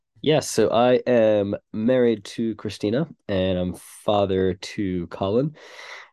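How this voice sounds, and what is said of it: American accent. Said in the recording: “as you can tell from my accent, not originally from England. So we moved from America”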